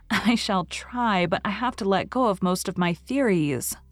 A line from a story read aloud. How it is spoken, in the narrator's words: said Anne, laughing a little